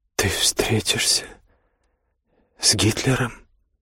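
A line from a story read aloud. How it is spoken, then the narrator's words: Incredulous mutter. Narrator (Russian): недоверчиво пробормотала она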